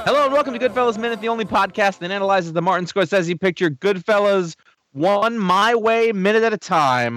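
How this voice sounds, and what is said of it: Slight New York accent. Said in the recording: “You're getting a little accent when he says Scorsese there. By the end of the movie, you're talking with a New York accent.”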